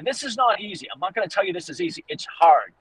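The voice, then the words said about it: Boston accent. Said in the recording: “I'm going to say this with my Boston accent”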